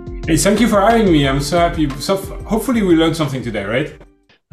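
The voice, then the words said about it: French-accented English. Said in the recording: “your accent is just priceless... You're from France, right?”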